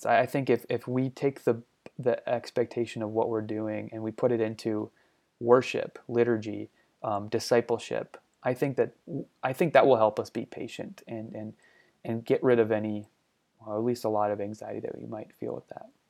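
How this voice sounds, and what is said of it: Hoarse, fading voice. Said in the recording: “I'm losing my voice a little bit here”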